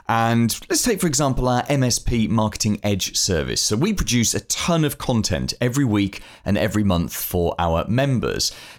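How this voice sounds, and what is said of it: British accent. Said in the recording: “as you can hear from my voice, I'm based in the UK”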